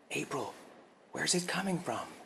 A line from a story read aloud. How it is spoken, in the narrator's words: whispered, hoping the noise wouldn't hear them